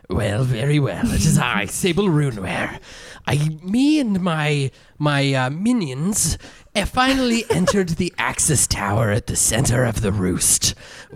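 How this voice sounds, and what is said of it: Character voice. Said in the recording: “Can you do it in a character voice, though?”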